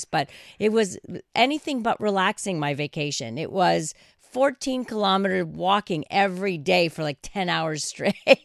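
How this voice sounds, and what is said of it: Hoarse, relaxed-sounding voice. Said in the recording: “You sound so relaxed that you are relaxing all of us. ... I think that's just my hoarse voice”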